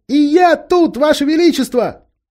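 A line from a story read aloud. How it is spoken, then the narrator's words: Two voices shouting. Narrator (Russian): закричали Люси и Эдмунд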